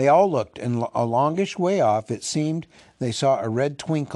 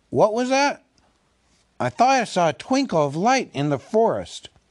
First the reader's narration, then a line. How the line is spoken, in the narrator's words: Balin, who was a little way ahead, called out